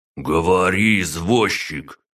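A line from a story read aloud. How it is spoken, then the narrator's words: Angry, through clenched teeth. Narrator (Russian): гневно процедил тот самый Масик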